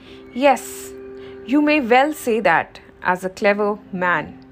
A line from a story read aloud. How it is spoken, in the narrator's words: exclaimed the field mouse